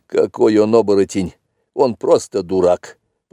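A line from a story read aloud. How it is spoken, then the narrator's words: Grumbling. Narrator (Russian): проворчал он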